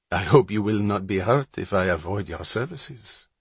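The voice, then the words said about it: French accent with island touch. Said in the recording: “Her accent was exotic, French, with a touch of the islands thrown in.”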